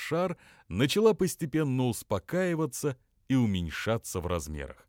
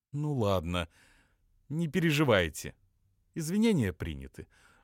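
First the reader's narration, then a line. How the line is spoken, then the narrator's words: Calm female voice. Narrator (Russian): уже спокойным голосом сказала она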